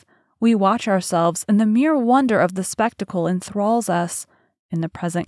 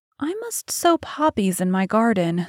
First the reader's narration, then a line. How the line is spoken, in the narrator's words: sighed Dorian